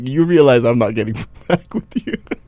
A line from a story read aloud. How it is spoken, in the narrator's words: she laughed so hard, and she's like